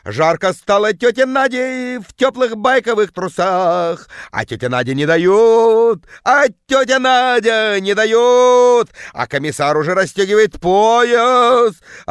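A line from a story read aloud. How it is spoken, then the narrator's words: Woman yelling, terrible bass. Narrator (Russian): орала тетка жутким басом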